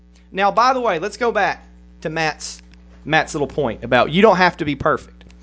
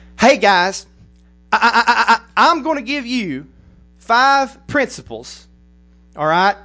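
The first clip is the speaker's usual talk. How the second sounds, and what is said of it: Imitates another person's redneck accent. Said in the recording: “I'm going to pretend to be Matt ... I'm not making fun of his accent. I'm a redneck too.”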